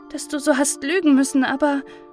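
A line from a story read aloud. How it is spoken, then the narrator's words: Slight sigh. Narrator (German): seufzte dabei ein wenig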